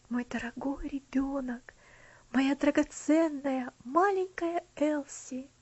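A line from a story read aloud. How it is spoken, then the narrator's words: Whisper. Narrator (Russian): прошептал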